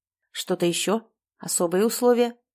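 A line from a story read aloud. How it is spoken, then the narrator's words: Calm. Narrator (Russian): спокойно уточнил нотариус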